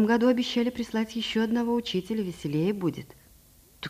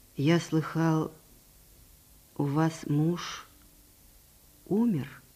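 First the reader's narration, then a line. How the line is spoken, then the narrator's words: Plain. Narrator (Russian): спросил Аркадий Сергеевич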